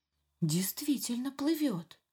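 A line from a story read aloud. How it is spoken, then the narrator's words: Small fish whispering. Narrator (Russian): шептались маленькие рыбки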